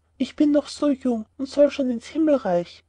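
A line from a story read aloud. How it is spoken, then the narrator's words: Sighing young boy. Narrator (German): seufzte der kleine Klaus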